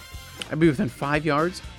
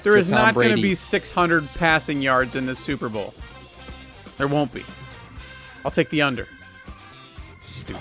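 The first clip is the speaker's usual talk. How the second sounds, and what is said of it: Yelling, loud emphatic voice. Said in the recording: “why you're yelling at me”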